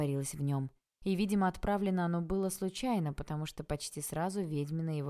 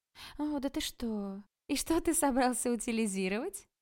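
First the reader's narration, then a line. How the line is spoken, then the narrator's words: Laughing. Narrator (Russian): рассмеялась Ада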